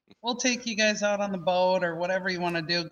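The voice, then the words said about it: Minnesotan-sounding accent. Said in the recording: “I just sounded like a Minnesotan boat. Did you hear that accent?”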